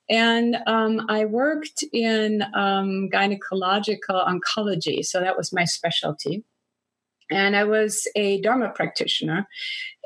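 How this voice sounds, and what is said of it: Non-native English accent. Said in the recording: “You probably hear that from my accent, that I do have an accent in English.”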